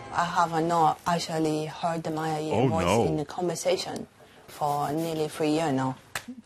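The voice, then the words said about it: Chinese-sounding accent. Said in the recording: “Woman develops a Chinese accent from a migraine”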